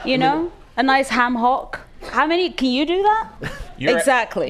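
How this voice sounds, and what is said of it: Speaks with an appealing accent. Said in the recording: “Your accent is so beautiful”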